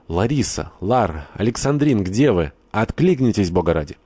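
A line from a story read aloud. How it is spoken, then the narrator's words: Shouting. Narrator (Russian): кто-то закричал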